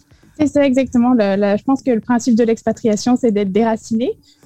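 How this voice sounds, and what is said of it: French speaker with Canadian accent. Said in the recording (French): “pour les Français, t'as un accent canadien ... pour nous, euh, Français de France, on, entend un, accent.”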